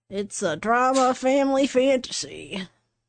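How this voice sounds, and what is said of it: Put-on southern American accent. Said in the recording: “Why are you doing it in a southern accent?”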